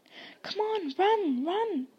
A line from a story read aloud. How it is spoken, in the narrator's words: Harry yelled at Hermione